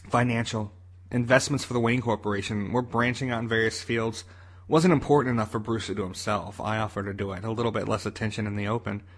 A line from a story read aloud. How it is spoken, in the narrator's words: he replied